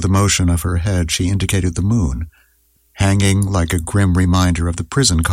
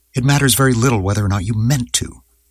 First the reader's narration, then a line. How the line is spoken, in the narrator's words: Julie said sharply